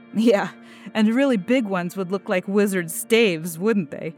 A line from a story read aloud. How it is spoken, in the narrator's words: He laughed gently